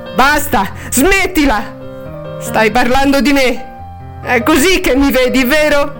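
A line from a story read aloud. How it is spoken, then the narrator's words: Wanting to scream. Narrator (Italian): Harriet avrebbe voluto urlargli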